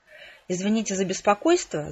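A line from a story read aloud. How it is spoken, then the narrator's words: Rapid patter. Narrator (Russian): зачастила она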